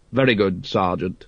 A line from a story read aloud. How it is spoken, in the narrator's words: said Vimes coldly